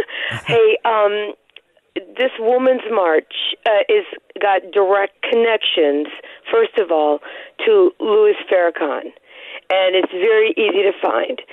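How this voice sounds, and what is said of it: Voice affected, sounds unwell. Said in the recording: “Sorry about my voice. It's allergies.”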